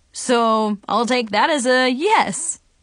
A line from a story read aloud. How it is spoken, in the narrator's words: Trevor laughed